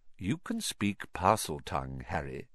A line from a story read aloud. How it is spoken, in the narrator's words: said Dumbledore calmly